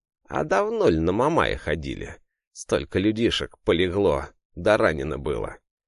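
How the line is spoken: Angry hiss. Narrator (Russian): Мужик зашипел в лицо

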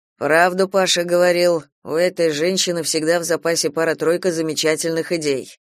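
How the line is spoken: Admiring. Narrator (Russian): восхитился Антон

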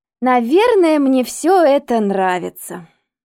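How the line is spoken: Ironic drawl. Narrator (Russian): протянула она, подчеркивая иронию своих слов

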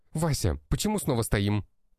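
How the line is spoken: Barked. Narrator (Russian): рявкнул менеджер

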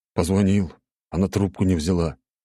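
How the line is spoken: Grumbled. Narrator (Russian): буркнул Володя

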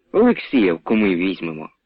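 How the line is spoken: Grumbled. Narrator (Ukrainian): буркнув Омелян

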